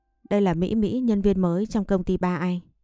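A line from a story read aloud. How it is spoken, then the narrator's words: Smiling, unbothered. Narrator (Vietnamese): Chí Bình liền cười, không tỏ thái độ chán ghét mà nói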